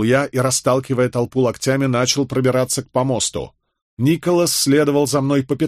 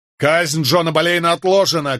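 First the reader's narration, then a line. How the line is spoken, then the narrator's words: Shout. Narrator (Russian): крикнул я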